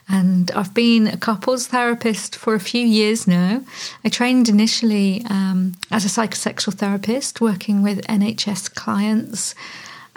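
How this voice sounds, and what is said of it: British accent. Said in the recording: “I'm based in the UK, if my accent doesn't give it away”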